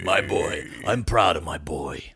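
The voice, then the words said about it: Imitates another person's voice. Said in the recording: “can you say I'm proud of my boy in Lawrence Stroll's accent, please?”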